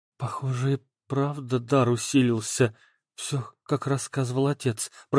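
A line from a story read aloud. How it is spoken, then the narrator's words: Whisper. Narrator (Russian): прошептала Оля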